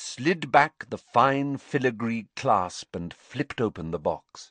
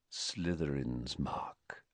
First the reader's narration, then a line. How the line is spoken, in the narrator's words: he said quietly